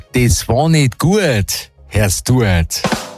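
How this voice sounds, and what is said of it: Put-on Bavarian accent. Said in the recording (German): “auf Bayerisch”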